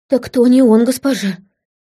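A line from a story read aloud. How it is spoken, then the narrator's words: Pleading. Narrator (Russian): взмолилась Вела под конец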